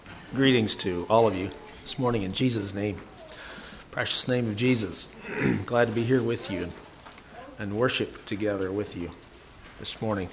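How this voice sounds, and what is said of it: Weak voice. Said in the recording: “my voice isn't very strong this morning”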